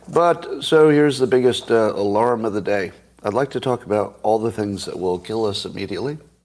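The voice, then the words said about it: Voice not fully recovered, strained. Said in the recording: “Excuse my voice. It's not coming totally back online yet.”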